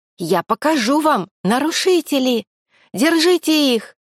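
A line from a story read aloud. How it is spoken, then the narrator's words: Girl screaming. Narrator (Russian): Завопила девушка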